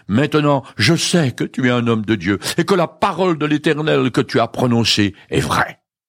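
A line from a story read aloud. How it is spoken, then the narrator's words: Woman exclaiming. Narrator (French): Alors la femme s'écria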